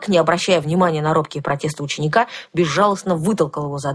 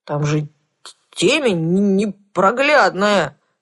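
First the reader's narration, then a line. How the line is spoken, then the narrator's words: Sorrowful wail. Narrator (Russian): горестно взвыл Кузьмай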